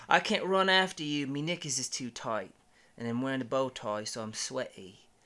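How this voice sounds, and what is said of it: Put-on British accent. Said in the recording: “showing you a little bit more British accent”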